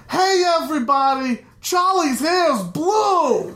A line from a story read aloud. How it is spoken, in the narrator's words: I hear him yell to everyone downstairs